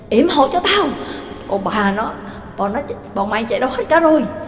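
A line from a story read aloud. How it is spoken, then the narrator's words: Panicked running shout. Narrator (Vietnamese): Gonzan cuống cuồng sợ hãi, vừa chạy như bay vừa hét lớn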